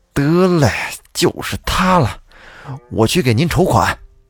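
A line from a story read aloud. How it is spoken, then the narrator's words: Hesitant, then resolute. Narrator (Chinese): 这陈秀才跟着犹豫了一下，咬了咬牙说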